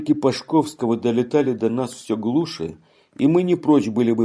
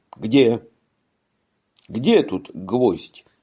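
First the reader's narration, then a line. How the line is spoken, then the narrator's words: Strangled voice. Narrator (Russian): Говорил сдавленным голосом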